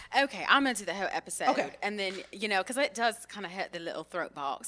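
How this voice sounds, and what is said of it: Put-on British accent. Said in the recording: “we're going to be using our British accents.”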